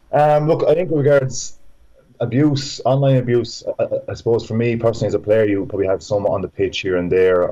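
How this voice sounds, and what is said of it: Irish Laois accent. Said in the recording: “my Laois accent ... the Laois accent's great”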